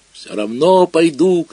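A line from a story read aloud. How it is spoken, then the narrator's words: Shouting. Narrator (Russian): кричал я на бабушку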